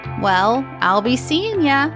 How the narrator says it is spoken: said cheerfully

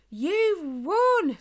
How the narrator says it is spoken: Spike shouted

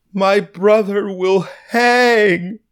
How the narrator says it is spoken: The girl cries, screams, almost startling diners out of their chairs

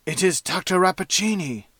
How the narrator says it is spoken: whispered the professor

